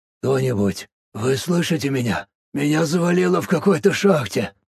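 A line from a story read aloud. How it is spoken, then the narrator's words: Monotone whisper. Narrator (Russian): Монотонно, будто в сотый раз подряд, прошептал Бенджамин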